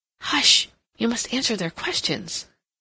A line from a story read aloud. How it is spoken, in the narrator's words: Catherine whispered, desiring at all costs to keep him quiet